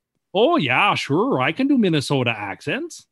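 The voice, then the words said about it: Put-on Minnesota accent. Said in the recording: “Can we hear your impression of someone from Minnesota? ... That is the same accent that you do for a friend from Iran.”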